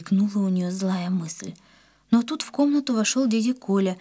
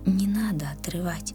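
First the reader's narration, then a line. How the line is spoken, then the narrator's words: Whisper in ear. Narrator (Russian): словно шепнул кто-то Риме на ухо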